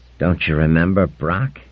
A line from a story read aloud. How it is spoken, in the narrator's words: asked softly